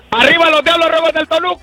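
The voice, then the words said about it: Shouting loudly. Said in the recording (Spanish): “¡No grites, güey!... ¡ ... no grites!”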